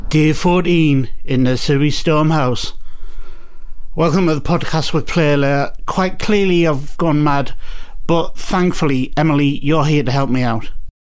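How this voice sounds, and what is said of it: Attempted Geordie accent. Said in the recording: “I even attempted the Geordie accent there”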